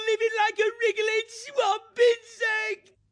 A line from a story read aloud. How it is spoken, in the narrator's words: He yelled hoarsely